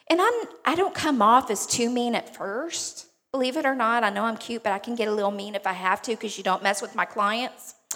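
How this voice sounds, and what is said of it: Southeast Texas twang. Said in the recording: “I'm originally from Beaumont, if you can't tell from my twang”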